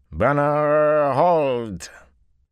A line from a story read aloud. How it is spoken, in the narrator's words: Those 2 words carried the familiar slurred drawl of the Seanchan